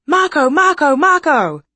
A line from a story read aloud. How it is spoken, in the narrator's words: The man cried out again